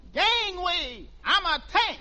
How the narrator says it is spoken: in a mailbox yelling

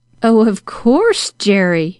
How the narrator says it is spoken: exclaimed Mrs

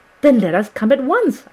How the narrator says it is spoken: I cried

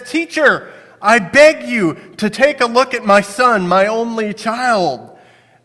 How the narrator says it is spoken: a man yells out to Jesus and says

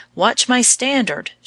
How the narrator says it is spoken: she cried

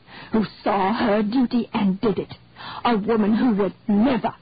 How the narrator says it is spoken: rasped, hard as stone against stone

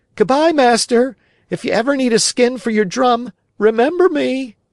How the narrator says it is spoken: Swimming away as fast as he could, he cried out, laughing

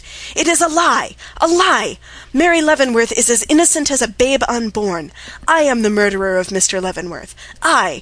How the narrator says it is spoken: shrieking out

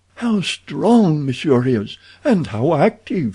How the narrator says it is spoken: she cried

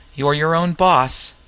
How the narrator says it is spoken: She answered sullenly

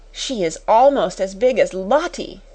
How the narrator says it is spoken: someone gasped

